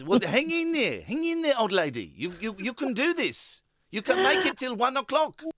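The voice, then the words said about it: Put-on mock Brighton accent. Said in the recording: “I'm doing an excellent accent. ... I'm not a South African. ... I'm not doing South African. ... Yes, I'm doing a Brighton accent. Can you not tell?”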